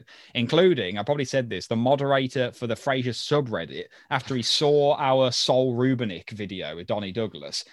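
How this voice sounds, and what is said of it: Birmingham accent, sometimes mistaken for Australian. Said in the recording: “I must have a really weird voice ... I've been mistaken by different people for being Australian ... we're from Birmingham”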